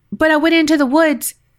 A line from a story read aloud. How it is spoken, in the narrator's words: blurted